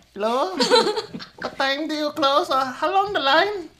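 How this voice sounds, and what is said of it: Put-on Filipino accent. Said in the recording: “change my voice ... You put the Filipino accent? ... Yeah”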